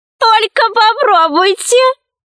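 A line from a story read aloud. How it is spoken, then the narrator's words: Laughing lizard. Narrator (Russian): рассмеялась ящерица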